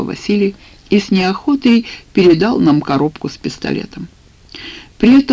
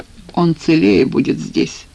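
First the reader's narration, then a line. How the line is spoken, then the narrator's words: Gloomy reply. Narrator (Russian): мрачно ответил он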